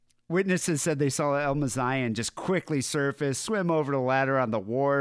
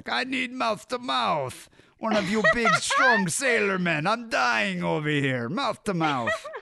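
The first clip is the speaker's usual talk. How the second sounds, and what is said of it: Imitates another person's voice, put-on accent. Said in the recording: “This accent. ... That's what the WAD sounded like”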